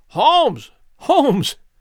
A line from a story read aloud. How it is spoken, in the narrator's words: I cried